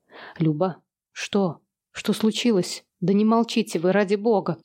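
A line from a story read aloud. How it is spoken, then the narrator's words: Frightened demand. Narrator (Russian): Испуганно потребовала Юля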